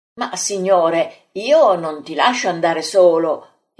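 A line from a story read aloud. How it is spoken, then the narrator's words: Exclaimed. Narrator (Italian): esclama l'Iscariota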